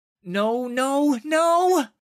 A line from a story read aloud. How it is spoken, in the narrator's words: gasped